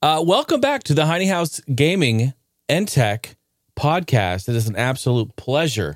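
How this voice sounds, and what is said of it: Usual voice. Nothing is said of it.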